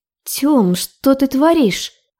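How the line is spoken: Hoarse trembling strained voice. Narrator (Russian): выдавила сиплым, дрожащим голосом

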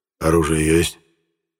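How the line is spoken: Deep bass voice. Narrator (Russian): пробасил

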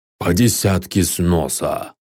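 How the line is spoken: Hoarse growl, jackal-headed god. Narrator (Russian): хрипло прорычал зверобог с головой шакала

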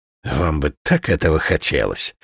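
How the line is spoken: Quiet laughter. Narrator (Russian): Рока негромко засмеялся

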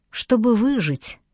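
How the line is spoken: Quiet reply. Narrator (Russian): тихо ответила Тори

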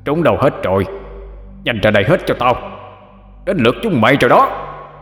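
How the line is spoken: Frenzied screaming. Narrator (Vietnamese): Hắn điên cuồng mà gào lên

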